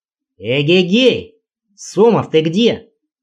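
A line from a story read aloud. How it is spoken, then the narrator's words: Loud shout. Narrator (Russian): Казалось, что кричу громко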